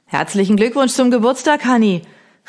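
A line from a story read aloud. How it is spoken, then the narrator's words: Neighbor calling over fence. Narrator (German): rief mir unser Nachbar Hugo über den Zaun hinweg zu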